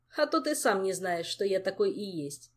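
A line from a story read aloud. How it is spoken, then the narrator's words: Laughing. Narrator (Russian): засмеялся Кантор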